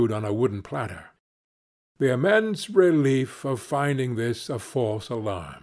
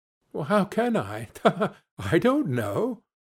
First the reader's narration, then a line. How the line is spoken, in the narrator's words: she added in the same breath, laughing